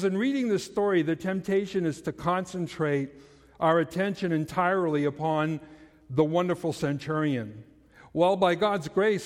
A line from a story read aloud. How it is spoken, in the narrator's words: Hendrickson said